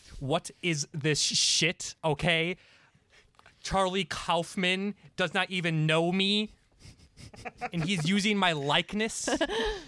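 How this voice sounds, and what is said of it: Angry, indignant outburst. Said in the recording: “I'll throw in my impression. I was picturing more of a angry rejection.”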